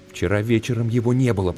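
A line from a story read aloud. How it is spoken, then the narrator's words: Whisper. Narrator (Russian): прошептал он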